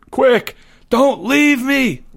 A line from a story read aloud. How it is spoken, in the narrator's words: Leo screamed